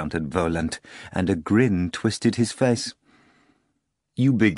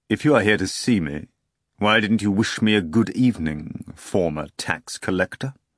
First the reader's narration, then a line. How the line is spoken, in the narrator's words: Volant asked sternly